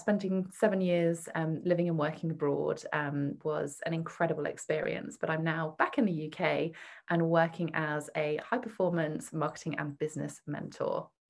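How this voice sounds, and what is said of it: British accent. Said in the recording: “You might guess from my accent that I'm from the UK.”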